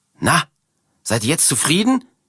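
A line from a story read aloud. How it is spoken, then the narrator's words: Shouting at strangers. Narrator (German): schreit Martha die beiden Fremden an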